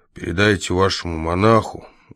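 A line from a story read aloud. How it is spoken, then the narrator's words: Tired voice. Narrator (Russian): устало произнес Лакандер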